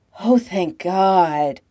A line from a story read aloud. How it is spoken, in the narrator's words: he gasps